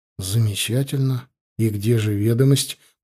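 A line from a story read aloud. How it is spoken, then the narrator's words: Muttered. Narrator (Russian): пробормотал я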